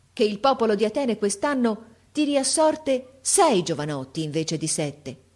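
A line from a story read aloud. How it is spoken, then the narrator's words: Exclaimed. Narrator (Italian): esclamò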